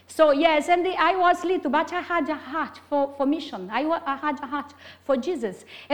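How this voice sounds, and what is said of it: Strong Brazilian Portuguese accent. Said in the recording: “I'm Brazilian, have a very strong accent”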